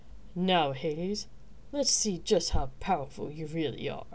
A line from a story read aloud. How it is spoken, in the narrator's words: the king said menacingly